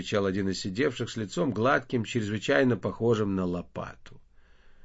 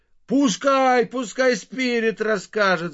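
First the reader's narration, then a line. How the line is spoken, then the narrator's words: Crowd shouting. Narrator (Russian): закричала толпа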